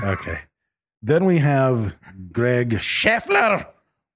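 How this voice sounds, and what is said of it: Subtle, bad German accent. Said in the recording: “I subtly pronounced it with a German accent. ... It was subtle. ... it was almost Argentina. ... That was a bad German accent.”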